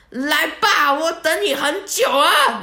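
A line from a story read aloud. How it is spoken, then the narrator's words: Loud. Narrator (Chinese): 大声跟他讲说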